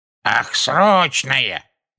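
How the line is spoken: Shrill voice. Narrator (Russian): пронзительным голосом отозвалась вторая

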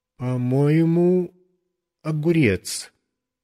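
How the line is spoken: Uncertain voice. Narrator (Russian): тем же неуверенным голосом сказал

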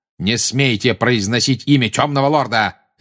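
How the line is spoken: Harsh bark. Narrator (Russian): рявкнул Снег

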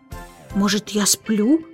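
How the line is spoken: Muttered. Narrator (Russian): пробормотал он

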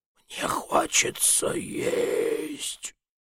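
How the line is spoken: Rather weak voice. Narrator (Russian): сказал довольно слабым голосом

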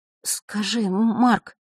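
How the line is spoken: Trembling voice. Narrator (Russian): дрожащим голосом произнесла Василиса

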